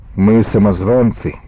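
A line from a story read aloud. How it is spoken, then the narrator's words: Gloomy voice. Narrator (Russian): опять сказал Яша мрачным голосом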